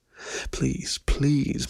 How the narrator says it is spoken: begged, a soft chuff of breath escaping between my clenched jaws

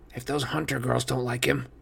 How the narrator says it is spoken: Grover grumbled

